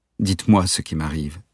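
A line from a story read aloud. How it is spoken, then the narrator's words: Weak pleading. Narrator (French): supplia Valéria d'une voix faible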